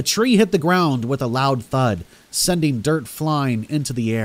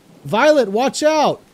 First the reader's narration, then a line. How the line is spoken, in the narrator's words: I screamed out